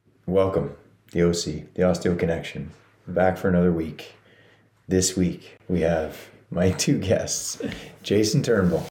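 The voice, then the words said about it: Hoarse, froggy throat. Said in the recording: “I have a frog in my throat, so if you hear me, clear it. ... Oh, you're going to hear it. ... Yeah. You can hear it.”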